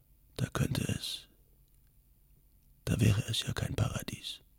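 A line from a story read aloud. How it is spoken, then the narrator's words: Whispered. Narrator (German): flüsterte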